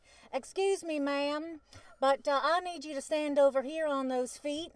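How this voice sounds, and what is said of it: Imitated strong Southern US accent. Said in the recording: “she's got this, like, real southern accent.”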